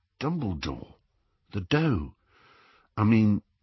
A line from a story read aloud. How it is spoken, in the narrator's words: Ron looked a little embarrassed, but said in a low voice